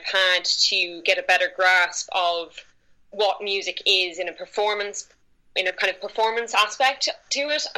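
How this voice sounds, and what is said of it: Irish accent. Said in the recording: “If the accent wasn't a dead giveaway, I am from Ireland”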